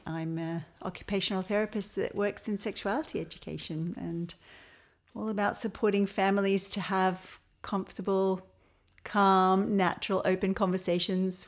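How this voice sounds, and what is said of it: Australian accent, not Irish. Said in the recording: “You may notice from my accent that I don't have an Irish accent... I'm originally from Melbourne”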